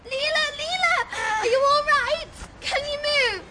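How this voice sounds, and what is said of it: Shouting. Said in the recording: “Stop shouting!”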